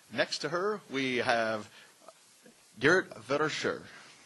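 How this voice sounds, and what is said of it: Put-on Dutch accent on name. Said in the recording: “I'm trying to say this with a good Dutch accent.”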